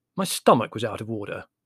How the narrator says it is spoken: explained Larry coldly

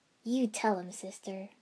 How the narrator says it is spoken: I chuckled

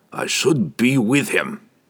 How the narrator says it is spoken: he said gruffly

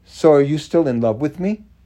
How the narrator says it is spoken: he just blurted out

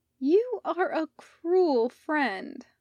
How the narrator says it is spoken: Steph whined

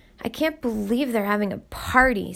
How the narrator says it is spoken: Smith muttered

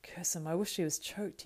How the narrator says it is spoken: he muttered

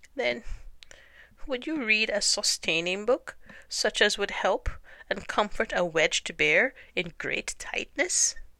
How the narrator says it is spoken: Bear began to sigh, and then found he couldn't because he was so tightly stuck, and a tear rolled down his eye as he said

